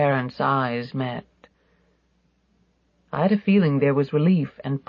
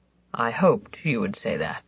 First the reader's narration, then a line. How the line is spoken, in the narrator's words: Papa said brokenly